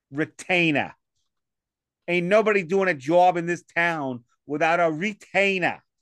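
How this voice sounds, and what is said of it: Put-on Boston accent. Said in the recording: “Boston accent... It was horrible, right?... No, it wasn't that bad. It started strong.”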